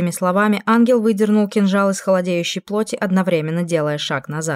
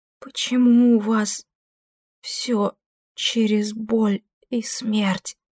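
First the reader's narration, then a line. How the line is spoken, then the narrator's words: Whisper. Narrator (Russian): прошептала Кэс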